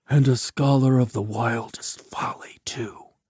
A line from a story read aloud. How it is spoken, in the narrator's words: someone whispered